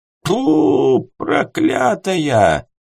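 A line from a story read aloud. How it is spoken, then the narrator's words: Hoarse shout. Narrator (Russian): извозчик сиплым голосом крикнул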